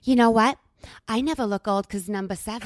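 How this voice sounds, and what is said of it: Put-on accent imitating a relative. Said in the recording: “I love your accent. This is so good.”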